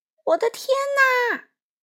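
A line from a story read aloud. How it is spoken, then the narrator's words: Startled loud shout. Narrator (Chinese): 农夫被吵醒了，大叫了一声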